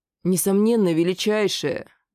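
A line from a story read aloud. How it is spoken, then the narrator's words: Obsequious breathy exclamation. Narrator (Russian): подобострастно выдохнул паладин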